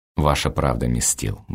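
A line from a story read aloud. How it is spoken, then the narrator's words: Muttering under breath. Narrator (Russian): бормочу в полголоса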